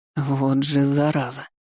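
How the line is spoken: Strangled groan. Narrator (Russian): сдавленно простонал Дан

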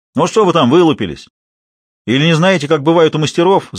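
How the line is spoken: Shouting at onlookers. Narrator (Russian): закричал Лавруха зевакам

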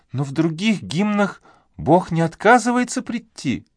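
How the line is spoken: Quiet question. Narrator (Russian): негромко спросила миссис Мур

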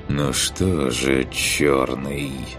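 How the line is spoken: Sighing after a pause. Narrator (Russian): После небольшой паузы вздохнул

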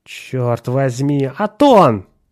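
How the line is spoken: Exclaiming. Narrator (Russian): воскликнул Ширин

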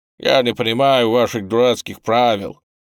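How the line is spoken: Irritated reply. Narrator (Russian): По-прежнему по-английски, но уже раздраженным тоном ответил я

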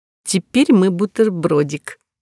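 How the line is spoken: Giggling. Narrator (Russian): хихикнув снова

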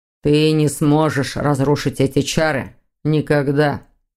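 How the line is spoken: Cold. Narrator (Russian): холодно сообщил Виктор

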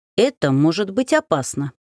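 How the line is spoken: Dry. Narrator (Russian): сухо произнес Стрельцов

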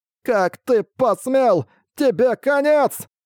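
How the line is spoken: Shrill yelling. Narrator (Russian): Вопил он тонким голосочком

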